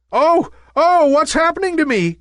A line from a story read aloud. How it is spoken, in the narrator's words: cried Nimbus in fear